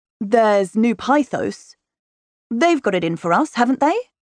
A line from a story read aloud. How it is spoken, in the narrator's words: Sutter says, with an odd strain in his deep voice